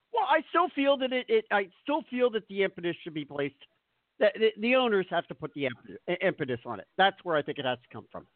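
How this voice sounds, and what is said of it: Philadelphia accent. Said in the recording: “that's my Philadelphia accent”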